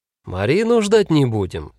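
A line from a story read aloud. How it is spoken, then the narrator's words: Cheerful announcement. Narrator (Russian): бодро объявил Файх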